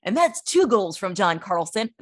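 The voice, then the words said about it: Sports announcer voice. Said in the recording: “That's my announcer voice.”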